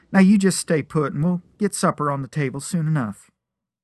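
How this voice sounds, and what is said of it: Musical country western accent. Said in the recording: “There was music in her voice and accent straight out of a country western song.”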